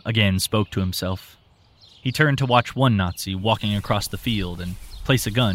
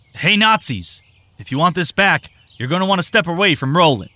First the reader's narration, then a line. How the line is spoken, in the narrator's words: Tim shouted